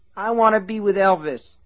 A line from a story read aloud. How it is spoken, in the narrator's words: she whined